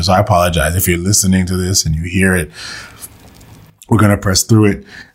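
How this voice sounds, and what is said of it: Losing voice, sounds under the weather. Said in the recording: “I know I'm losing my voice. I'm a little under the weather”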